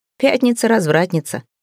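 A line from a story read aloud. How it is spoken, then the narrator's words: Giggling. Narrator (Russian): Евгений хихикнул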